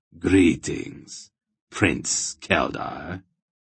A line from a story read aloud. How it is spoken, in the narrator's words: he said, almost purring